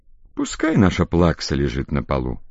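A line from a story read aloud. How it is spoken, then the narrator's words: Feigned indifference. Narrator (Russian): нарочно равнодушным голосом говорит Степа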